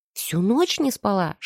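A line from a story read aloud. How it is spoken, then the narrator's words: Whispered explanation. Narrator (Russian): шепотом пояснила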